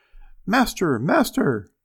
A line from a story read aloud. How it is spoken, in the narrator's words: the harp called out quite loud